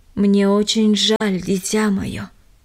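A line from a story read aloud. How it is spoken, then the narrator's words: Plain. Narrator (Russian): сказал он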